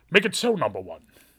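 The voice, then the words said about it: Patrick Stewart impression, regal Shakespearean. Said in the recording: “I do a Patrick Stewart impression. ... He's like this regal Shakespearean actor.”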